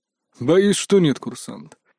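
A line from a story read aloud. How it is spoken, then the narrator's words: Calm reply. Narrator (Russian): спокойно ответил охранник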